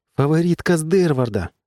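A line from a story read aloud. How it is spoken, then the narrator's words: Exclaimed. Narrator (Russian): воскликнула Эллен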